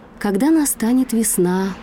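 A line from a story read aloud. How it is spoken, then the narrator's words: Doe's sigh. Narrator (Russian): вздохнула олениха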